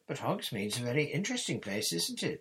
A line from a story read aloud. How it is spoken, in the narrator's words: Hermione pressed on eagerly